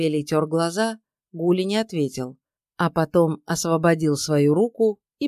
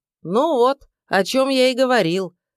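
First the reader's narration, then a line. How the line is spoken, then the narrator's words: Shouted after someone. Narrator (Russian): крикнул ему вслед Степан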